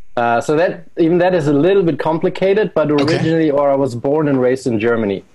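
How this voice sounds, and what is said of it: Noticeable foreign accent in English. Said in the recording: “that's an interesting accent”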